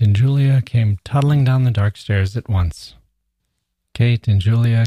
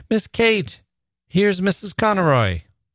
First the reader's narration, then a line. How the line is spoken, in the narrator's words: Lily called out